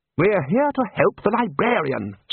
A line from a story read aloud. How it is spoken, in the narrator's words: snapped Ridcully